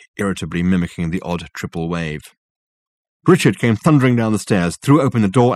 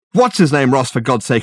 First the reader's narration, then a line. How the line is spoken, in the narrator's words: exclaimed Richard